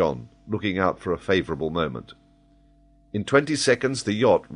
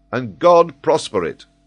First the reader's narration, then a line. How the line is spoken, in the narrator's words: cried the captain